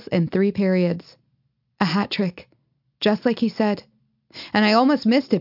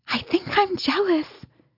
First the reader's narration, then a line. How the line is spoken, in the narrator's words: Meg leans over, whisper shouting in my ear